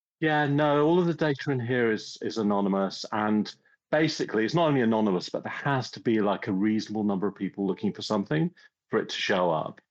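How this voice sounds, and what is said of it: English accent. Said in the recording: “listeners can't help but notice your accent. ... you're the most English person you will ever meet”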